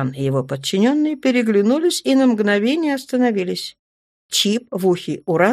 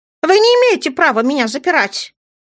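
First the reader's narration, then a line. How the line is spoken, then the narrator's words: Shouting from the corridor. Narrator (Russian): кричала в коридоре журналистка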